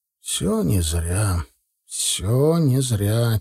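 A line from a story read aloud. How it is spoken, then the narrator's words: Soft breathy murmur. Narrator (Russian): тихо, словно бы легким ветерком слетело с губ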